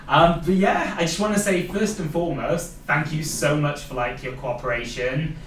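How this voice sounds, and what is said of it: Welsh accent. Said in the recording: “I've got my Welsh accent coming through.”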